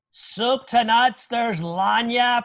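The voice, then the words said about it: Imitates another person's voice. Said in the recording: “my bad Mark Vandermeer impersonation”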